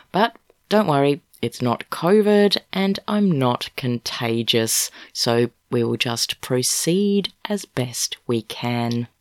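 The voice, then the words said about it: Voice affected by a cold. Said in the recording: “my voice sounds a little bit different today ... I have a cold”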